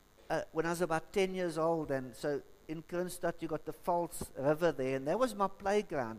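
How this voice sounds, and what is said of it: South African Free State accent. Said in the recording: “I was born in PE, but I moved to Kroonstad in the Free State, hence the accent.”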